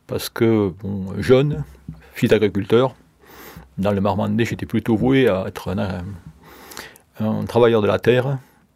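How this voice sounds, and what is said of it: Regional French accent. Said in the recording (French): “cet accent, je l'ai surtout pris sur le terrain de rugby”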